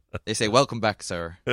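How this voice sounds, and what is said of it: Weak attempted American accent. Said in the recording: “How is my American accent there? ... You got to work on that American accent a bit.”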